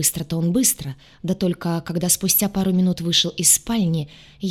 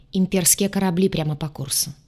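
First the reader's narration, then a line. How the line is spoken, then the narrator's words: Dry reply. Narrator (Russian): сухо отозвался капитан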